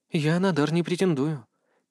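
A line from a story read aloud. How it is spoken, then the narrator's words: Very quiet sudden whisper. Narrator (Russian): тихо-тихо шепнула вдруг Эмма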